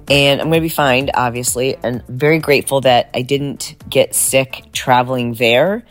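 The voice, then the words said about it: Deeper, raspy voice. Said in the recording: “my voice is a little deeper and raspier than normal, and that is because I brought home a little souvenir from my travels, and I'm a little under the weather”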